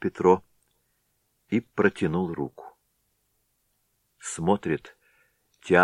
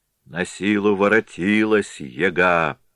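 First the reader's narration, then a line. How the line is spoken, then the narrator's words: Grumbling through teeth. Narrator (Russian): проворчал он сквозь зубы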